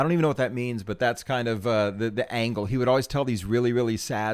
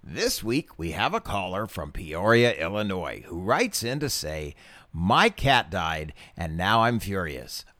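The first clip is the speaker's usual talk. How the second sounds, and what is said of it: Impression of a radio announcer voice. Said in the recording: “I don't do his Shaggy voice, but I do his radio voice”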